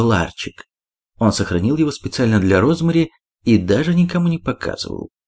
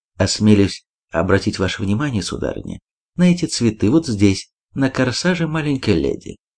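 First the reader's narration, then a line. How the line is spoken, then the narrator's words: Quiet. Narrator (Russian): негромко сказал он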